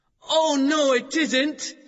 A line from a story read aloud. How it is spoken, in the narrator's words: shouted Matt